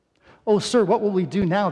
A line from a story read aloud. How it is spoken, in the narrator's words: the young man cried to Elisha